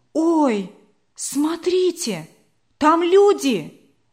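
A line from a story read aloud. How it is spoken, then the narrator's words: Exclaiming. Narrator (Russian): воскликнула смуглая Линара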